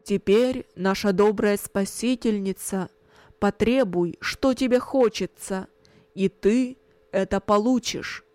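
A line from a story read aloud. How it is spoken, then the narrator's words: Loud. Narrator (Russian): громко сказал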